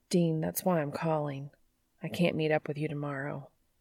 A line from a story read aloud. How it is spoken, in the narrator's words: Sam mumbles